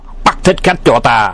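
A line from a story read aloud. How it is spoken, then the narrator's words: Loud shout. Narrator (Vietnamese): Hoàng Nhan Hữu quát to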